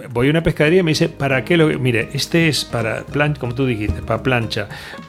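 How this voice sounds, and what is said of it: Noticeable regional Spanish accent. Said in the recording (Spanish): “el acento mío me delata”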